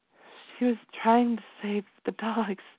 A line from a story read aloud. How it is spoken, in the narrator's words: she said shakily